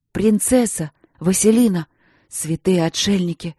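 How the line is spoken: Cursing through gritted teeth. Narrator (Russian): Мариан ругался сквозь зубы, поминая то святых, то демонов

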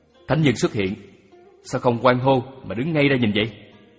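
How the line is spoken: Sharp, irritated tone. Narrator (Vietnamese): Lý Bá nói có vẻ gắt

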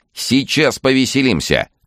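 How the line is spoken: Shouting. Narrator (Russian): крикнул рыжий

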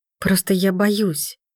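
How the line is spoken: Near whisper. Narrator (Russian): чуть ли не шепотом добавляю

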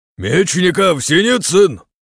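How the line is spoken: Shouting. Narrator (Russian): крикнул нам Тимофеев

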